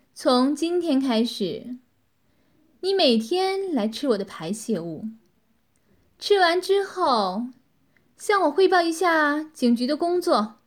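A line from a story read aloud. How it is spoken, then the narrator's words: Cold, satisfied. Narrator (Chinese): 女子这才满意的微笑了一下，冷冷的说道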